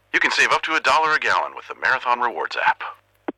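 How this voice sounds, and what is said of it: Impression of Max the Bald Eagle. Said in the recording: “do an impression of me ... That last one was pretty good.”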